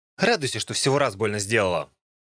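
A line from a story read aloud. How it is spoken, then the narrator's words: Cold. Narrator (Russian): Холодно сказала она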